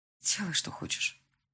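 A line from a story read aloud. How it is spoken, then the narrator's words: Tired reply. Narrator (Russian): устало отозвалась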